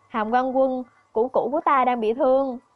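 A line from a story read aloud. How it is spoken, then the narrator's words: Frightened. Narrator (Vietnamese): Kim Lăng sợ hãi mà nói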